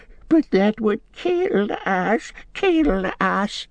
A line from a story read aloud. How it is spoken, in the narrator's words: whimpered Gollum